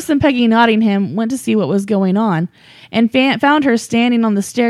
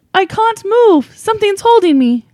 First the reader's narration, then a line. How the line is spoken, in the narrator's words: suddenly called out